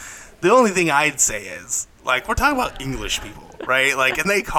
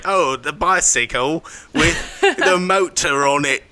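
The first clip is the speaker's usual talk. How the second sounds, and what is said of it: Put-on British accent. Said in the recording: “What's really weird is your British accent ... That was a perfect British accent.”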